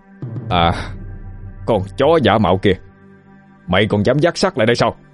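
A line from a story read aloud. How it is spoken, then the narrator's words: Shouting. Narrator (Vietnamese): Tấn Hành liền hét lên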